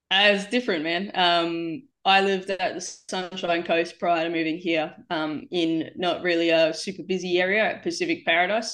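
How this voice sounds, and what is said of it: Australian accent. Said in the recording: “I was Australian ... I could tell from the accent. I was like, oh, it's a dead giveaway”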